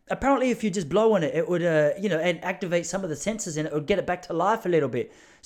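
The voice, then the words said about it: Put-on New Zealand accent. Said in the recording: “This is my New Zealand accent. ... Started out New Zealand, it's gone to Cockney a little bit.”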